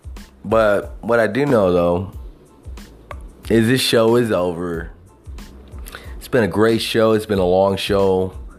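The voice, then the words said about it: Southern American twang. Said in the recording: “that hobo with a southern twang”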